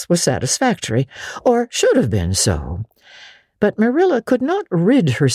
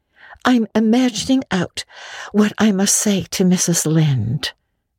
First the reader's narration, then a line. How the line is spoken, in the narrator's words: answered Anne dreamily